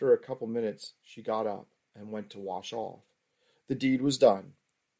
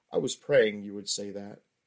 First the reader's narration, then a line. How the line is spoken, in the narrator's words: said with a chuckle